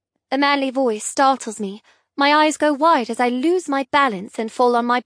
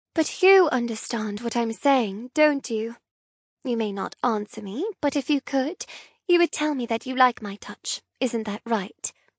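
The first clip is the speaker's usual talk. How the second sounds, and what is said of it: Soft cooing voice. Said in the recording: “I coo in a soft voice”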